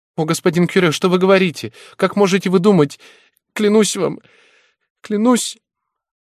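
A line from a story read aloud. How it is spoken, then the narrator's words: Sobbing. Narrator (Russian): Она зарыдала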